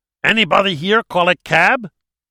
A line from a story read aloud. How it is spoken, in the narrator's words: One of Enrico's men growled at Joe in Spanish